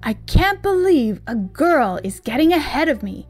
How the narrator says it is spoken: he exclaimed

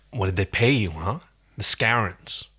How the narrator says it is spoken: menacingly

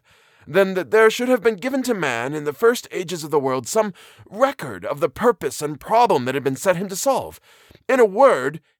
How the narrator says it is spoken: he cried

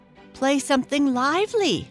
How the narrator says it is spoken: said the French doll as she giggled behind her hand

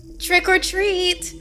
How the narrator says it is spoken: the Grim Gouger said in a high and enthusiastic voice

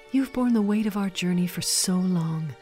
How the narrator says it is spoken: said gently

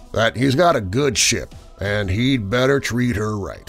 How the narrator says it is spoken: rumbled the Lanvaban's former skipper

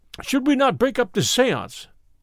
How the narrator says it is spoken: I cried

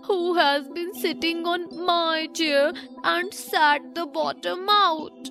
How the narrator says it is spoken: the teeny tiny bear cried out in a teeny tiny voice of anger

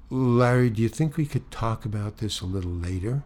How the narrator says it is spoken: Very, very calmly, very quietly, she says

